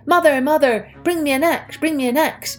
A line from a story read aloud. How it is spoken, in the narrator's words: he called out